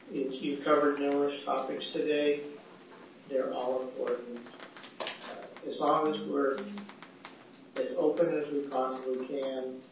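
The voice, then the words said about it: Strained, failing voice. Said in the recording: “my voice is going”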